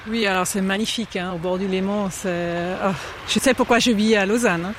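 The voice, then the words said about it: Slight Swiss German accent in French. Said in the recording (French): “j'entends un petit accent, donc vous n'êtes pas de Lausanne à la base ... je viens de Saint-Gall”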